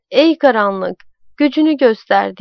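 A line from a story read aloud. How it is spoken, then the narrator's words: Shouting and hollering. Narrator (Turkish): diye bağırıp çağırıyordu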